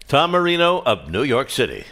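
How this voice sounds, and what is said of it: Announcer voice. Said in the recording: “that's a great announcer voice”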